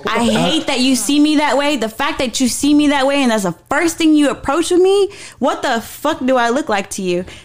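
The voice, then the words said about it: Yelling passionately. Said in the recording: “I'm yelling, but passionate thing for me”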